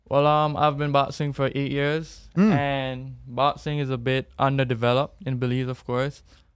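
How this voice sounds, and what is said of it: Jamaican-sounding Caribbean accent. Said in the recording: “That accent sounds very Jamaican.”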